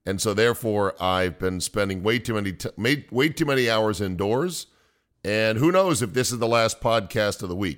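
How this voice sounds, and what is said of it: Gravelly, sick-sounding voice. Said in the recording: “I'm under the weather, as maybe you can tell by my voice ... your voice gets so sexy ... a little extra gravelly”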